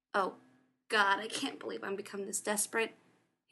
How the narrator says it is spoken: he snapped

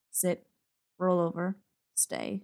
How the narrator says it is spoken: Logan mutters

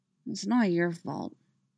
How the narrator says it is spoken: Ezra mumbled

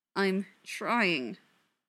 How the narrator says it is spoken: Neil said, through gritted teeth

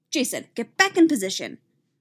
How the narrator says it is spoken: Marina snaps from behind him

